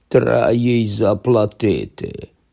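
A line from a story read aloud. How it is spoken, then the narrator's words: Grumble. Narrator (Ukrainian): буркнув з канапи Гегрід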